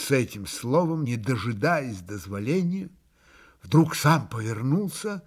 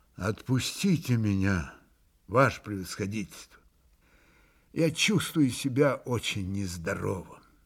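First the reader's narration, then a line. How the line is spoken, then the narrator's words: Exhausted pleading voice. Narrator (Russian): Иван Федорович изнеможенным голосом попросил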